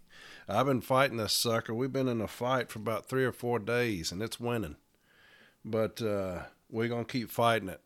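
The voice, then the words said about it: Congested, sick-sounding voice. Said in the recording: “I have got the worst cold in history ... I know my voice is probably a little bit different”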